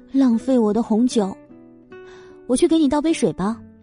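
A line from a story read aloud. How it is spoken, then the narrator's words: Muttering at moderate volume. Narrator (Chinese): 声音不高不低的嘟囔道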